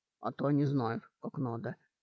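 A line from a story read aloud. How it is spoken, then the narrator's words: Gruff mutter. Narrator (Russian): буркнул Гарбхан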